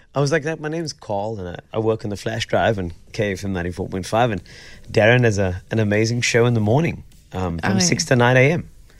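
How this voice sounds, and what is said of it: Hoarse, nearly lost voice. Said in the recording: “Is that why your voice is gone?”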